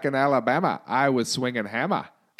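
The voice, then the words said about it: Put-on Australian accent. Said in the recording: “reading fucking rap lyrics in an Australian accent ... Oh my God, that's so good.”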